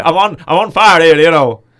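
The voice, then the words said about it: Put-on Irish accent. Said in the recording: “that's my Irish accent coming back there, right, with Colin Farrell.”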